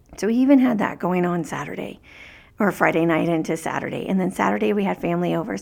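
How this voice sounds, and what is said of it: Raspy, tired voice. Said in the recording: “I still sound raspy today”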